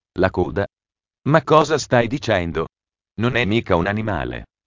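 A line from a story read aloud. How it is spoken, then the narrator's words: Teacher speaking while laughing. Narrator (Italian): Il prof ridendo disse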